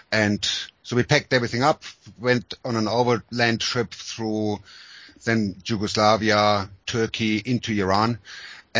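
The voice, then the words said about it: German accent. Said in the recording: “as you can hear from my accent, I was born in Germany”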